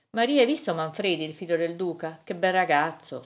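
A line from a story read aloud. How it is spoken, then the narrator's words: Sighed. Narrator (Italian): sospirava la marchesina Adelaide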